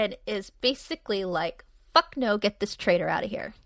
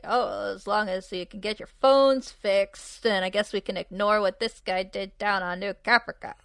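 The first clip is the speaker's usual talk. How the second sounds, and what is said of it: Impression of Ty's drunken cadence. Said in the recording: “That's a good Ty impersonation ... like that cadence that he has”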